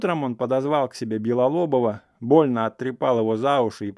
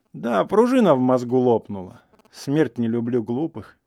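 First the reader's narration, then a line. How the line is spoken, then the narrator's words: Sighing. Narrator (Russian): вздохнул Игнат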